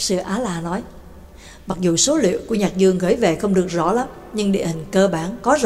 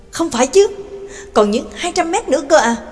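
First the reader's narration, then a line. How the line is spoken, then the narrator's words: Astonished exclamation. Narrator (Vietnamese): Nhạc Dương kinh ngạc kêu lên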